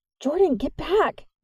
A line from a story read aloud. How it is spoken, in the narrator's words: Nix cried